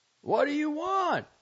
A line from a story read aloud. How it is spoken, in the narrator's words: I cried hollowly